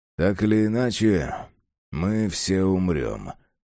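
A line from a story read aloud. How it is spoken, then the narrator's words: Mutter. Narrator (Russian): пробормотал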